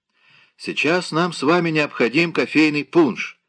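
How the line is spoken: Shout from kitchen. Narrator (Russian): закричал из кухни Кратвик

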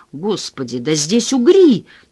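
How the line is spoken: Shout again. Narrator (Russian): опять закричал он

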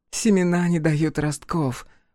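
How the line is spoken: Gloomy. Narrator (Russian): промолвила Кутанрова уныло

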